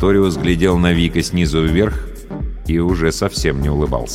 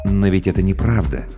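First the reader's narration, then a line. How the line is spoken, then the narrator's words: Soft. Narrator (Russian): мягко произнес Сарториус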